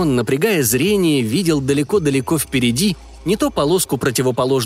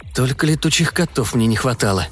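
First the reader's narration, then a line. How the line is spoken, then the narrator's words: Muttering. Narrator (Russian): пробормотал Виссарион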